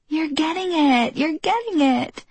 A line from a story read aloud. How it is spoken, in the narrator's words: Jenna had squealed with delight